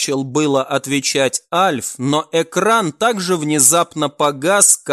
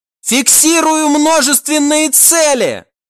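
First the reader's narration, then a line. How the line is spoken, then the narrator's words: Sudden yell. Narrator (Russian): внезапно заорал один из членов команды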